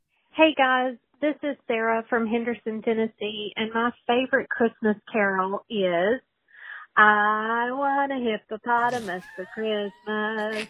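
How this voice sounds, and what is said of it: Tennessee Southern accent. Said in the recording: “that sweet Tennessee right there... Tennessee accent coming out”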